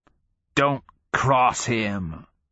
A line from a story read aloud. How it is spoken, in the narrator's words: he rasps with something like conspiratorial glee